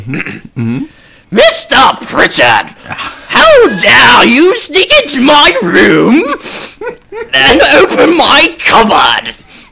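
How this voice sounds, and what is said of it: Loud stern teacher character voice. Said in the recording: “with a teacher voice ... loud ... of course, he's really loud.”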